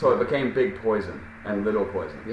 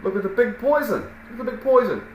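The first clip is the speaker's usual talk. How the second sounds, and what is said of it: Put-on Brooklyn accent. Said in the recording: “with that Brooklyn accent”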